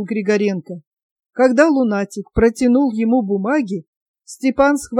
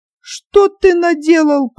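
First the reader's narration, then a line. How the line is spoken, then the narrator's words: Whiny yelling. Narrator (Russian): плаксиво заорал Кузьма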